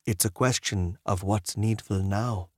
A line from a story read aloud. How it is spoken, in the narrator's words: he said